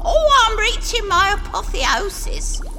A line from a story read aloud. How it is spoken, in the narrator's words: she cries